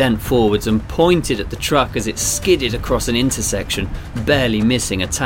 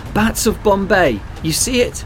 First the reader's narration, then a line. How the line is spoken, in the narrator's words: Kayla shouted